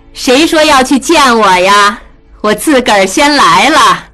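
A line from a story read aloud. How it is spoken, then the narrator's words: Calling out. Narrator (Chinese): 门外曹氏喊着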